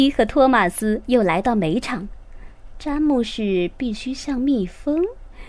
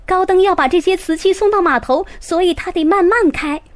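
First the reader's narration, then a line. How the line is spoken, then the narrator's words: Excited shout. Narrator (Chinese): 裴西兴奋地喊了出来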